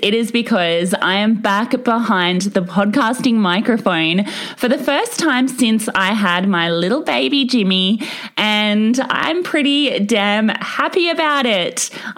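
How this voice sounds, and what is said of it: Excited, upbeat voice. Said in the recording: “hear the excitement in my voice”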